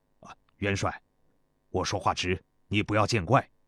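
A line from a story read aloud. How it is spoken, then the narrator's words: Hurried, deferential. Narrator (Chinese): 中年士兵急忙止住话，躬身道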